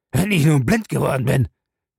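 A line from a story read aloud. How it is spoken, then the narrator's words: Groaned. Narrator (German): stöhnte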